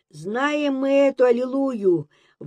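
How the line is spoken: Shouted from back rows. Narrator (Russian): выкрикнул кто-то из дальних рядов

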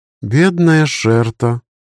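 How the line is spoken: Sighing. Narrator (Russian): вздохнула магичка

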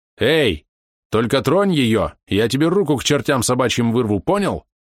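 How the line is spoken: Furious yell. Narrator (Russian): Заорал на него Яда так, что даже сам испугался собственного голоса

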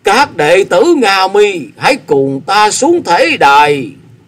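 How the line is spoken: Tearful, loud voice. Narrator (Vietnamese): Ngộ Tịnh chân nhân gạt nước mắt, lớn tiếng tiếp lời

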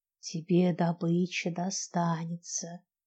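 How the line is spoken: Whispered in the ear. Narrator (Russian): прошептала ему на ухо

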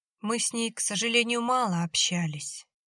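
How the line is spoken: Heavy sigh. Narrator (Russian): тяжело вздохнул Валерий

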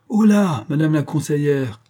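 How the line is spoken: Husband shouting. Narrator (French): criait le mari

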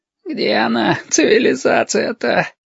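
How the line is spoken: Exhausted groan. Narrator (Russian): простонал изнемогший Лосьон

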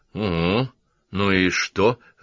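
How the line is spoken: Indifferent snort. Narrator (Russian): равнодушно хмыкнул Саймон

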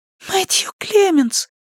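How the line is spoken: Whisper. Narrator (Russian): прошептал голос

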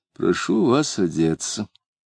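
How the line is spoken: Said quietly. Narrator (Russian): негромко сказал

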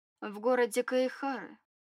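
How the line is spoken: Calm, necromancer. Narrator (Russian): спокойно сказал некромант

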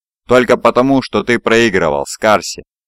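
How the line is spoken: Laughing. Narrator (Russian): рассмеялся

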